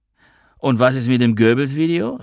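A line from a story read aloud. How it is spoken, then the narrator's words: Called after him. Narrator (German): rief Noah ihm hinterher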